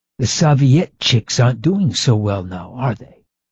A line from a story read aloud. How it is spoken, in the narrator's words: she inquired in a loud whisper